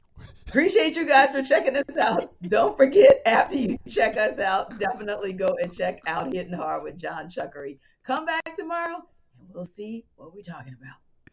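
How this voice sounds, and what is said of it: New Orleans accent. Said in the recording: “That New Orleans accent just came out.”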